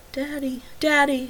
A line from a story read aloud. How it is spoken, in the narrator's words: crooned softly, eerie and unwelcome